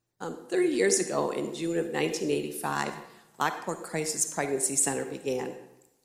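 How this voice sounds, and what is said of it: Slightly hoarse, congested voice. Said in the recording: “I have a little bit of a cold, so if my voice goes out”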